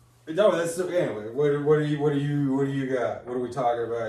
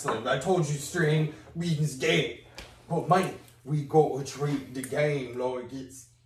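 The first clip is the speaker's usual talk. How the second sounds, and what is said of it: Terrible put-on accent. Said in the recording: “that terrible accent”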